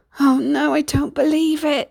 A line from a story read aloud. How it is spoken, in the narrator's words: Sinbad groaned